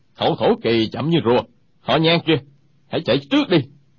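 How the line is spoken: Angry. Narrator (Vietnamese): Một trong ba người đang giao đấu tức giận nói

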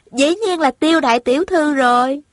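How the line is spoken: Giggling reply. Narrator (Vietnamese): Thanh Thanh cười khúc khích đáp

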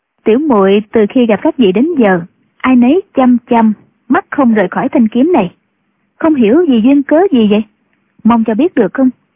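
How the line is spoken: Smiling. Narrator (Vietnamese): Triệu Mẫn mỉm cười, nói

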